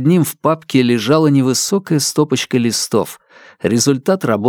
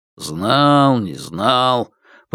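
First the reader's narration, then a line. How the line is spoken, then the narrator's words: Habitual grumbling. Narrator (Russian): по привычке проворчал Блеер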